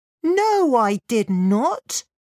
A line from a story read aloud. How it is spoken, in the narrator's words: snapped Lin